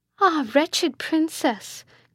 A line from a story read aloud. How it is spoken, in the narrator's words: cried Isabella